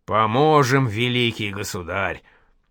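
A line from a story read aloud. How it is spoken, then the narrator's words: Wheezed. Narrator (Russian): просипел и Семен Бабский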